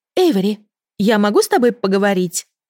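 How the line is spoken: Agitated girl speaking. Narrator (Russian): взволнованно произнесла девушка

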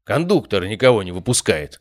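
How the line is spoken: Grumbling. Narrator (Russian): пробурчал мой попутчик

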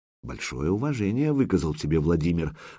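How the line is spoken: Whisper. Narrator (Russian): шепнул Духарев византийцу

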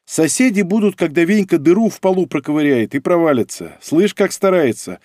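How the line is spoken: Laughing. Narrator (Russian): рассмеялась Ольга

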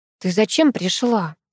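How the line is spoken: Angry whisper. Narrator (Russian): сердито шепнула мне Ульяна

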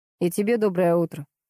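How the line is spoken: Amused snort. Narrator (Russian): хмыкнул подполковник

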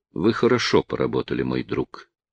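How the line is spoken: Quiet. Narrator (Russian): тихо сказала Зоя

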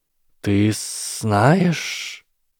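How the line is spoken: Stunned hiss. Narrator (Russian): ошеломленно прошипел Гарри

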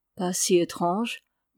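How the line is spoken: Old monk murmuring. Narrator (French): murmurait le vieux moine

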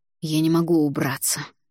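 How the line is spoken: Tired. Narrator (Russian): наконец устало произнес Альгидрас

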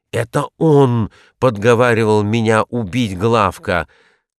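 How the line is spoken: Exclamation. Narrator (Russian): Узнав Хилона, воскликнул

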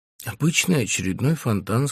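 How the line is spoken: Plain. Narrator (Russian): сказал он

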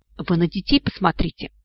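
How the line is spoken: Whisper. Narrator (Russian): прошептал Вик

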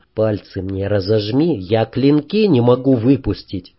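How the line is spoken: Quiet request. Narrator (Russian): я тихо попросил

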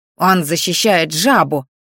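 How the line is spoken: Young man snapping. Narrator (Russian): огрызнулся парень

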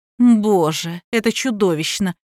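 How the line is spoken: Scornful snort. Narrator (Russian): фыркнула Надежда

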